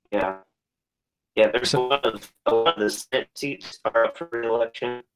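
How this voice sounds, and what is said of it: Robotic, breaking-up phone voice. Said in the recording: “Kind of losing you... we're kind of losing you a little bit. We got the robot voice... we can barely hear you”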